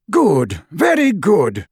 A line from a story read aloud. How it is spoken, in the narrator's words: cried the portrait of Dumbledore